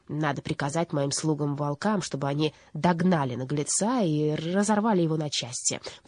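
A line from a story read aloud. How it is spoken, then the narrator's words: Grumbling. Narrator (Russian): пробурчала Бастинда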